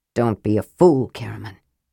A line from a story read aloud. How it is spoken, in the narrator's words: Tanis said softly